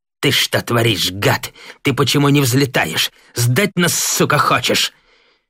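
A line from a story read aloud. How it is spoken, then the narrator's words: Through gritted teeth. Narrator (Russian): Девятаев сквозь зубы бросил Кривоногову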